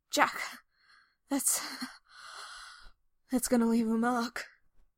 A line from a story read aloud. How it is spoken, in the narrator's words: Rhys gasps out as Jack bites down